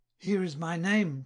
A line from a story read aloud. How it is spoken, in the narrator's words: cried he